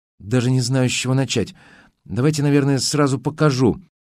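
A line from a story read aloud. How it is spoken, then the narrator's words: Unsure, flustered young woman mumbling. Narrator (Russian): Неуверенно улыбнулась в ответ девушка, сделала глубокий вдох и растерянно пробормотала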